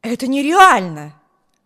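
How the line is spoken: Exclamation. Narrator (Russian): воскликнул мистер Тревор

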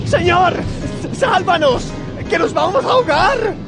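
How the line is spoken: Several voices shouting. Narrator (Spanish): Gritaron

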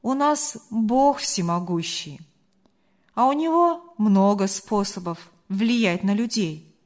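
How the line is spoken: Calm. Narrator (Russian): спокойно ответил Марк

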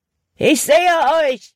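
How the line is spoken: Called out. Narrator (German): rief Hutton

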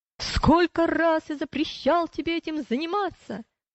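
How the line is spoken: Shouting. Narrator (Russian): Вредитель закричал

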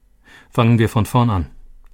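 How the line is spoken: Plain. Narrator (German): sagte Nico

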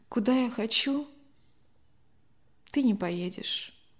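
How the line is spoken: Quiet sighing voice. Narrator (Russian): Любовь Александровна вздохнула, тихо произнесла

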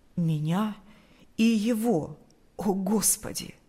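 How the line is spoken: Trembling voice. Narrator (Russian): произнес дрожащим голосом

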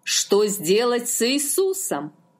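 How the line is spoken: Plain question. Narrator (Russian): спросил Пилат

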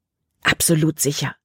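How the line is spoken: Hissing snap. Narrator (German): fauchte Caleb

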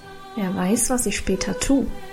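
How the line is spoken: Mysterious murmur. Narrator (German): murmelte Karl geheimnisvoll

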